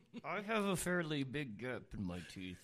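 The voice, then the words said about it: Talking through clenched teeth, lisping. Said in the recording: “with his teeth clenched tight ... I can barely talk like this ... It really just sounds like I'm shitting while I'm talking ... my lisp really comes through ... You sound like a rich guy with a lisp”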